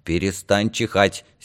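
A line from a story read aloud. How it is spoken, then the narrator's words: Angry. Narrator (Russian): сердито сказала Данка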